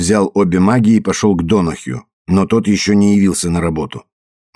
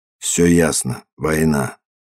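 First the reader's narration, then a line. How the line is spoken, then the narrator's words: Choked, strained voice. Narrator (Russian): Маккола сдавленным голосом произнес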